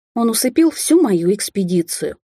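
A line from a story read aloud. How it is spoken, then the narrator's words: Sad sigh. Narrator (Russian): печально вздохнула я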